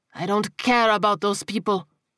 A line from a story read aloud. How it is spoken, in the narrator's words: Tiago snapped